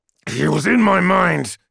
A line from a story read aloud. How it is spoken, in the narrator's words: growled Hecaron